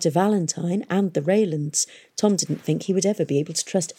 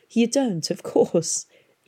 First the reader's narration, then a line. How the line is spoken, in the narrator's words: she laughed